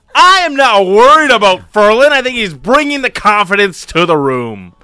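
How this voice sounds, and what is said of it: Imitating co-host's big showman voice. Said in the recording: “I'm doing your voice now ... See, showmanship.”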